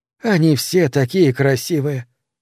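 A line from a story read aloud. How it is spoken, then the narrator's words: Sighing woman. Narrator (Russian): вздохнула она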